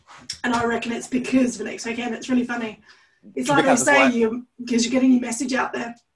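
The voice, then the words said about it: Voice going, strained. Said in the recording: “I'm losing my voice.”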